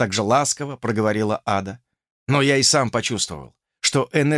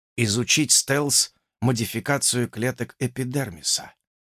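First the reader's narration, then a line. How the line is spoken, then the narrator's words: Whispering. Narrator (Russian): прошептал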